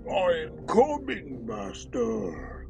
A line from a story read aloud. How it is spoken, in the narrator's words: roared the ape-like brute